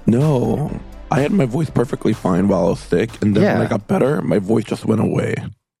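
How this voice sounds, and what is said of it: Hoarse, coarse voice. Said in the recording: “excuse my voice being a little coarse ... my voice hasn't come back”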